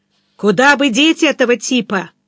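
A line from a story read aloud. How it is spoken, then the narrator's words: Loud pointed question. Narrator (Russian): вопросил я громко, в расчете, что он поймет намек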